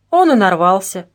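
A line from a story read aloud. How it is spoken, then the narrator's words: Heavy sigh. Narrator (Russian): тяжело вздохнул Вашко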